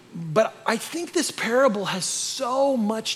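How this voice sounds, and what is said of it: Usual voice. Nothing is said of it.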